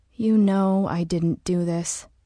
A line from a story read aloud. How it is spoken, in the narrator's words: said